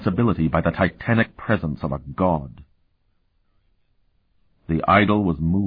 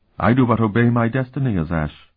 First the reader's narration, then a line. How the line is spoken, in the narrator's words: Sifrenia replied calmly